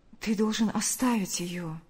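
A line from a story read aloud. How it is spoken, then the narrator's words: Soft interruption. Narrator (Russian): мягко прервала его Ульяна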